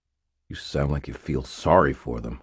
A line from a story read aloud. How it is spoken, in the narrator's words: I said, my voice hard